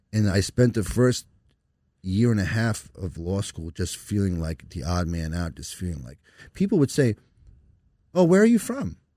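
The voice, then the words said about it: New York Brooklyn accent. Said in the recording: “You have an accent. I'm like, where do you think my accent's from? ... Fucking Brooklyn. I grew up in Long Island.”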